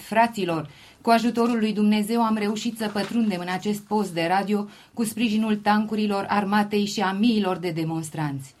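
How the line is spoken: Exclaiming. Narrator (Romanian): o persoană neidentificată a exclamat

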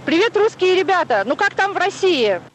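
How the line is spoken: Shouted. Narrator (Russian): Он закричал

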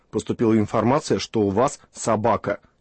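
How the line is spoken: Stern policeman. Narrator (Russian): Милиционер сказал грозно

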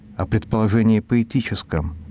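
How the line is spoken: Timid correction. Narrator (Russian): робко поправил арестованный

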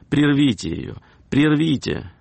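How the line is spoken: Woman exclaiming. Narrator (Russian): одна дама воскликнула

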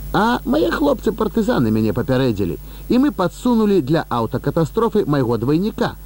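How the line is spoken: Happy laughter. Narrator (Belarusian): шчасліва рассмяяўся Леў Міронавіч

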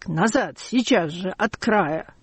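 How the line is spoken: Hoarse, unrecognizable shout. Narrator (Russian): хриплый, неузнаваемый крик

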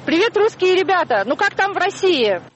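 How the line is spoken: Shouting. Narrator (Russian): Он закричал

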